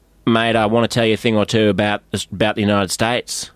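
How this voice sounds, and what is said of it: Australian accent. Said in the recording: “my Australian accent ... your real accent. Don't overdo it.”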